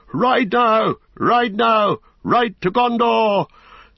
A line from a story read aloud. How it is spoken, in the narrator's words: Suddenly the king cried to Snowmane